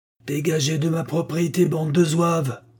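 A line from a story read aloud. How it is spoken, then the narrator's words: Authoritative roar over engine. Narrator (French): rugit-il avec une autorité retrouvée, sa voix amplifiée par le bruit du moteur grondant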